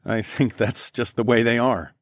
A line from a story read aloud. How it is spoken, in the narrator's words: I chuckled